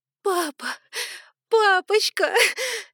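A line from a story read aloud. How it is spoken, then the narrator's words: Sobbing uncontrollably. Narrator (Russian): Я рыдала уже навзрыд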